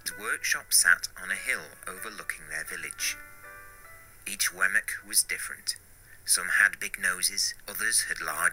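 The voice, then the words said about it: Foreign-accented storytelling voice. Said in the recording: “a foreign accent”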